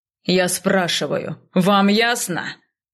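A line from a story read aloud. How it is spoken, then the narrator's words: Impatient bark. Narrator (Russian): Гаркнул он, теряя терпение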